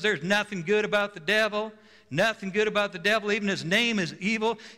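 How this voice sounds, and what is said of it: Slight put-on Southern accent. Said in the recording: “She talked with a little bit of a Southern, you know, accent.”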